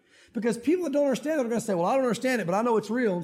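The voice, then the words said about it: Southern US country accent. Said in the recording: “I don't know why I'm talking so country today ... I grew up here”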